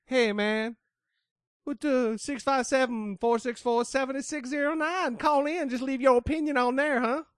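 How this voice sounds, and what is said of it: Put-on accent. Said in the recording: “how good the accent was ... I'm good at accents”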